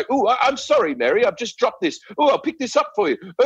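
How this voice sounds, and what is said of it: Posh British accent, Hugh Grant impression. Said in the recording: “there'll be a British person like ... They Hugh Grant it around, right?”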